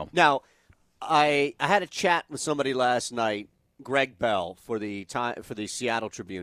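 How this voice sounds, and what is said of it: New York accent. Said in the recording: “my dialect will always mispronounce it... That's the New Yorker in me.”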